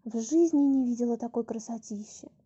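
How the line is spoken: Breathless. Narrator (Russian): выдохнула она

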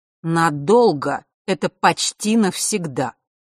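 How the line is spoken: Angry reply. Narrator (Russian): как-то зло ответила повелительница Лютов и даже рассерженно

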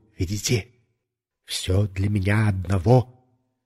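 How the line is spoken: Whisper. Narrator (Russian): я снова шепнул

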